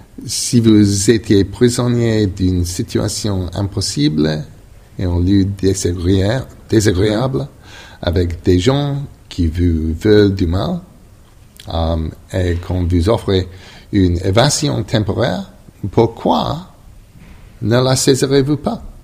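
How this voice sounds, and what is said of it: Non-native accent speaking French. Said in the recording (French): “my appalling French accent”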